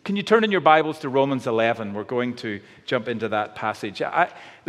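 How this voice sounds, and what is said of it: Northern Irish accent. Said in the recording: “I'm from Northern Ireland. I hope the accent's starting to kick in”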